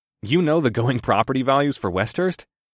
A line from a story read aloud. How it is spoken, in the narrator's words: I chuckled